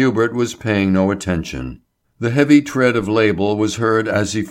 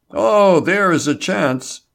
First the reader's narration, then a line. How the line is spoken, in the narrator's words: Label exclaimed